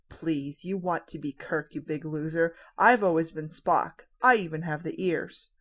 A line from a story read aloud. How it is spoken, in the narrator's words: John scoffs